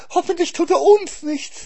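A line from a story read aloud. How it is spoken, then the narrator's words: Hare whining. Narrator (German): jammerte der Hase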